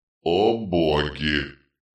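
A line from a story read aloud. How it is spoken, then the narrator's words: Muttering to nobody. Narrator (Russian): пробормотал он, никому особенно не обращаясь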